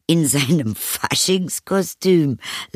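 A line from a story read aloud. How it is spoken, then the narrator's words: Laughing, mother. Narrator (German): lachte die Mutter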